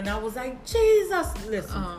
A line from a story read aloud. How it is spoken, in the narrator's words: I hollered